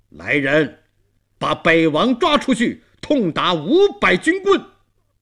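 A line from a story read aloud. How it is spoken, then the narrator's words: Angry shout. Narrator (Chinese): 他高声怒喝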